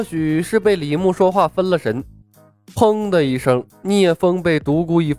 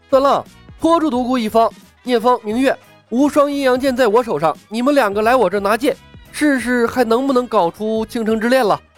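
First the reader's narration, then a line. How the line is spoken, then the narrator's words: Shouting. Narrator (Chinese): 李牧对对局中的几人喊道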